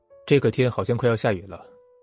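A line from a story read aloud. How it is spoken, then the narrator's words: Calm, flat. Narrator (Chinese): 他……淡淡的表情……对林雨柔说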